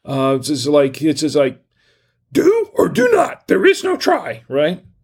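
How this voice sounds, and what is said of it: Bad Yoda impression. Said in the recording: “my bad Yoda impression”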